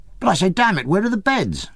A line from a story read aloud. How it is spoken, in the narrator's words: with a shock of surprise, I exclaimed